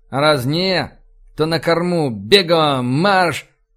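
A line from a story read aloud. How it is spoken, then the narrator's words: Bark. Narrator (Russian): Рыкнул я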